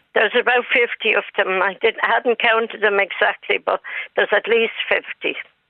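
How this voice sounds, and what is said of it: Dublin Irish accent. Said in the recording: “It's not a Tipperary accent you have there... I'm from Dublin.”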